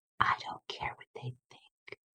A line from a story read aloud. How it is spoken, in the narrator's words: She whispered in my ear